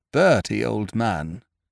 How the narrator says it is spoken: said Biffy solemnly

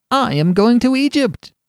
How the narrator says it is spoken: cried the swallow

